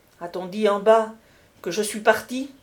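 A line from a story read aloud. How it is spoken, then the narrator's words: Priest exclaiming. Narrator (French): s'écria l'abbé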